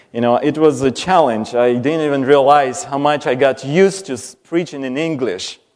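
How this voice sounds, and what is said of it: Strong foreign accent. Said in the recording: “I also brought my accent with me. Because I know I had an accent before I left, but I think it's even stronger now.”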